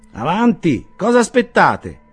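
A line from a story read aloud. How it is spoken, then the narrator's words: Voice behind partition. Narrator (Italian): esclamò una voce dietro il tramezzo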